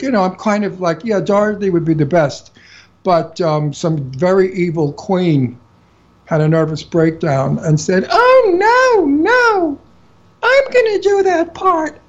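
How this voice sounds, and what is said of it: New York accent. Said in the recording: “I have her accent. I'm a New Yorker.”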